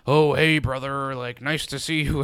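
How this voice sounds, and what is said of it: Imitates another person's voice. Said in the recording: “That was my Charlie. That was my Charlie Hunnam impression.”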